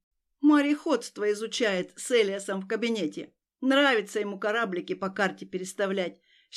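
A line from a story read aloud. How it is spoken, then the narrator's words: Happy laughter. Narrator (Russian): счастливо рассмеялась Алета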